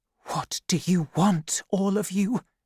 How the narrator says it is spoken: whispered

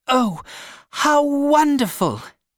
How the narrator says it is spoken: cried one of the women

